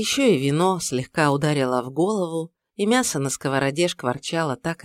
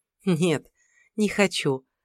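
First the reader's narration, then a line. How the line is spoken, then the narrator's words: Happy laughing. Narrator (Russian): рассмеялась она, в который раз почувствовав, как с ним просто и хорошо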